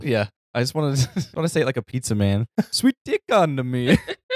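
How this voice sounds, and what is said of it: Put-on Italian pizza man accent. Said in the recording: “I haven't worked on my Italian accent. A very long time. ... You sound like Mario. ... Pizza man accent.”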